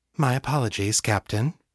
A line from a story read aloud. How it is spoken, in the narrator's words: she said, her voice eerily calm